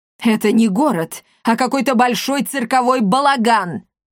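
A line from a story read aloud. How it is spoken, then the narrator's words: Angry shout from the floor. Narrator (Russian): злобно крикнул распластавшийся на полу жандарм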